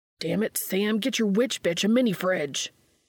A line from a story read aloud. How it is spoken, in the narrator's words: Dean barks